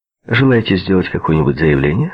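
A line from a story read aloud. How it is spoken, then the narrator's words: Plain. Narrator (Russian): спросил капитан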